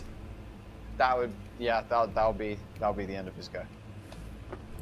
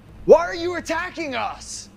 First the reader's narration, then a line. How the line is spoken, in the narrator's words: shout at the gnoll